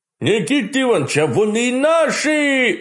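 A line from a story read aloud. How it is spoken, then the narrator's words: Joyful howl. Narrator (Russian): радостно взвыл Митяй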